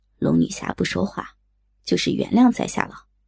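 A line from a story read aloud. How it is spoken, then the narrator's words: Soft, half-smiling. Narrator (Chinese): 锦衣少年似笑非笑的，柔声道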